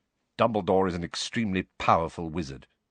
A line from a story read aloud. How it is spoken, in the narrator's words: Snape muttered